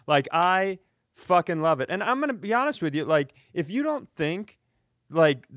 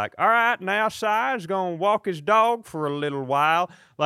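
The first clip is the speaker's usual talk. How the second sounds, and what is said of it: Put-on Southern hillbilly accent. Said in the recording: “I use the Southern accent a lot... I love the Southern accent... 380-pound hillbilly sitting outside a gas station in Missouri”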